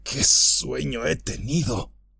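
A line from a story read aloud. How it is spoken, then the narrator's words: Murmur. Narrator (Spanish): murmuró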